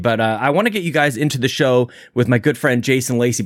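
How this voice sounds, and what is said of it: Out of breath while talking. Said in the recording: “How am I out of breath, man? ... I'm like struggling with my lung capacity.”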